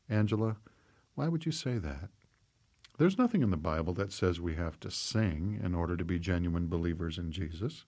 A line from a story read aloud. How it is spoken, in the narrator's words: Grandma said in a very quiet voice